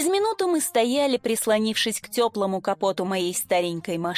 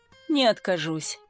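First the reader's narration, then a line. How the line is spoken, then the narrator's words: Sighing. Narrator (Russian): вздохнул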